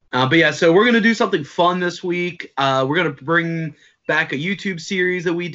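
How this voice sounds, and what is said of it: Usual voice. Nothing is said of it.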